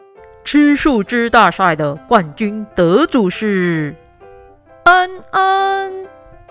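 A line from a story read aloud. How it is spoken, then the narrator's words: Loud announcement. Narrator (Chinese): 一个好大的声音宣布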